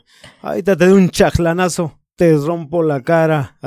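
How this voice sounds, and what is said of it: Sing-song regional Peruvian accent. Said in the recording (Spanish): “los verdaderos arequipeños hablan más cantado ... así te hablan, ¿no? O sea, más cantadito”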